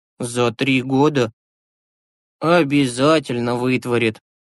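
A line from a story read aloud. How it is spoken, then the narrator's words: Cheerful confirmation. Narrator (Russian): весело подтвердил Юрасик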